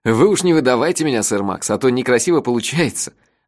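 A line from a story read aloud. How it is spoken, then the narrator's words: After laughing. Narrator (Russian): отсмеявшись, сказал сэр Манго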